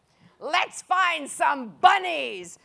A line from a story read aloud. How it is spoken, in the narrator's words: snarled the giants